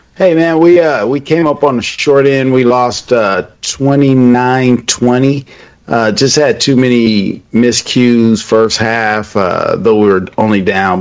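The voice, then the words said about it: Tired voice. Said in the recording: “your voice is a little tired”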